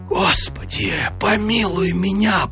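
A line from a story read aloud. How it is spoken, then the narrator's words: Terrified whisper. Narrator (Russian): прошептал он в смертельном испуге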